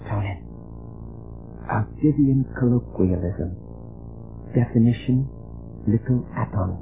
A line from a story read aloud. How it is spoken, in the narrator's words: She whispered